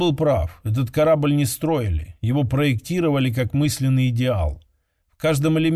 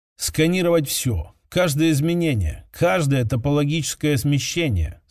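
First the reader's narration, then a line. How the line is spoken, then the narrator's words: Calm command. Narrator (Russian): спокойно приказал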